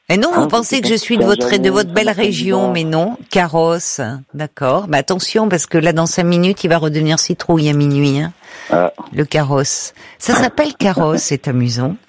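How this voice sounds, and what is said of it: Slight singsong southern French accent. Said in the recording (French): “vous retrouvez un petit accent du sud ... Il y a une petite pointe, voilà, d'accent du sud, un peu chantant”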